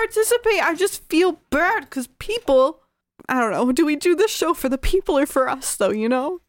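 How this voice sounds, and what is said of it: Usual voice. Nothing is said of it.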